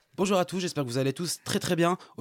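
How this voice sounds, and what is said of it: Artificial upbeat online-marketer tone. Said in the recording (French): “ces gens là ils ont tous le ton artificiel ... Vous voulez une petite imitation?”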